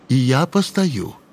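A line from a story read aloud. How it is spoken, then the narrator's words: Calm, confident. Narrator (Russian): Дубовской спокойно и уверенно говорил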